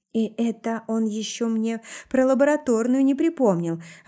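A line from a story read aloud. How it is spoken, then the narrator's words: Wistful sigh. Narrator (Russian): вздохнула тоскливо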